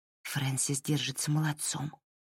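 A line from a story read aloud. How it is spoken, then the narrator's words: Whispered. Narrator (Russian): прошептала Лайла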